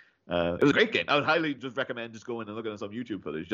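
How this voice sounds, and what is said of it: Usual voice. Nothing is said of it.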